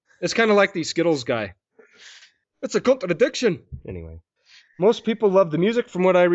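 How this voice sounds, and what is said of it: Usual voice. Nothing is said of it.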